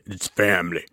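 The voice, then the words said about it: Vin Diesel impression. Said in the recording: “my Vin Diesel impersonation”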